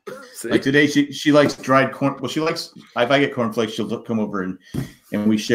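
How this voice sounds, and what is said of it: Usual voice. Nothing is said of it.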